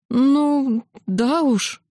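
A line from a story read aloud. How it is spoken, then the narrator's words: Hesitant agreement. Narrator (Russian): запинаясь, согласилась я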